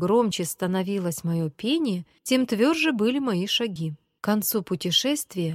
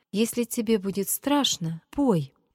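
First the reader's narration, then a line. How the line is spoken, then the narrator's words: Timid. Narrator (Russian): Петя начал робко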